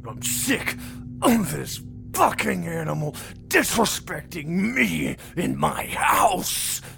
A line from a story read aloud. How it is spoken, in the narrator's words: Carl snarled drunkenly